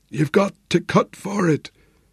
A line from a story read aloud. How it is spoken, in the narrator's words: Flynn whispered, and he shivered with cold